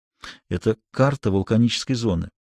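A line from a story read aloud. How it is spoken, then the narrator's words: Whisper. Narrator (Russian): шепнул мне Корлевен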